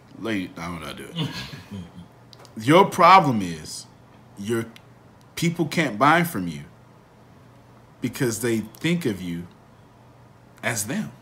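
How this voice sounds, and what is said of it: Imitates another person's voice. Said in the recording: “Put on my Morgan Freeman voice.”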